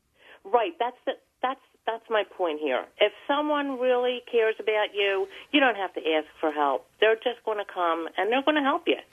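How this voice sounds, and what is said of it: Philadelphia accent. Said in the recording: “the Philly accent's going to be coming out now... As if it didn't before.”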